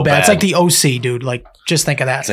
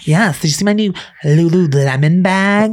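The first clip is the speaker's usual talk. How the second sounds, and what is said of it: Mocking Valley Girl accent. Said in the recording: “the Valley Girl that just like, ... you just sound like a whiny cunt”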